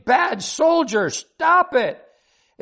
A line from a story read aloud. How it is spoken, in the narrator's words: She screamed